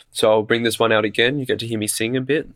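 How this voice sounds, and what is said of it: Sick, rough-sounding voice. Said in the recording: “I know I don't have my sexy radio voice today because I'm a bit sick”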